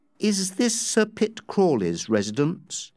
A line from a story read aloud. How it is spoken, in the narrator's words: Becky asked